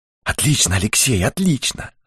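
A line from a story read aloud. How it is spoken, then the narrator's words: Whisper. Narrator (Russian): шепнул Дауги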